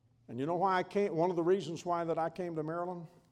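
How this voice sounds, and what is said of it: Southern American accent. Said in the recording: “I hear that I have an accent. ... No, I grew up in the South.”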